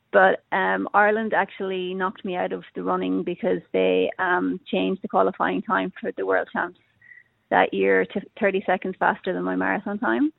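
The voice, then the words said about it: Irish accent. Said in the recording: “I still have my Irish accent”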